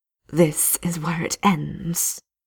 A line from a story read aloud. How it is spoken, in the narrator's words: she hisses